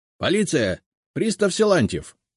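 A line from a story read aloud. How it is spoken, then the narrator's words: Shout. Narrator (Russian): крикнул он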